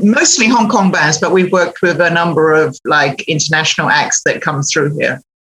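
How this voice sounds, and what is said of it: British accent. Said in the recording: “you sound like you have a British accent.”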